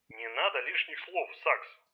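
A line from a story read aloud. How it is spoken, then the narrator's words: Grumbled. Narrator (Russian): проворчал Райм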